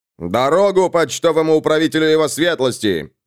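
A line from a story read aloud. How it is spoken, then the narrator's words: Shouting. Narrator (Russian): сир Хамфри кричал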